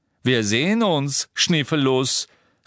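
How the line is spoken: Unknown voice calling. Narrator (German): rief eine Stimme

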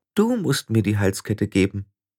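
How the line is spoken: Gentle speech. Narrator (German): sagte Oma Wetterwachs sanft

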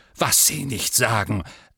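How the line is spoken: Angry reply. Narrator (German): erwiderte der Premierminister wütend

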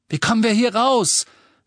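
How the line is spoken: Shouting over uproar. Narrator (German): rief Ron durch das ganze Geschrei

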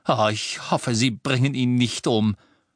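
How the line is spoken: Groaning. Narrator (German): stöhnte Hermine

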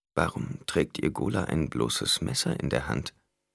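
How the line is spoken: Quiet. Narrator (German): Tandis sagte leise

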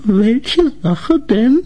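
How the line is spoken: Trembling voice. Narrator (German): fragte Grete mit bebender Stimme

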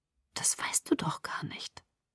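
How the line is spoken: Whispered objection. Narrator (German): widersprach ich flüsternd

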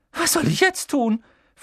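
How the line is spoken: Shrill question. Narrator (German): fragte sie mit schriller Stimme

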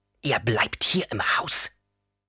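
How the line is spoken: Hissing. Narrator (German): fauchte

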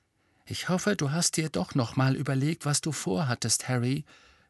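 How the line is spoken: Whispered. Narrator (German): flüsterte Hermine

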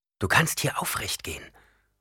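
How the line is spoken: Whisper. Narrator (German): flüsterte Chani

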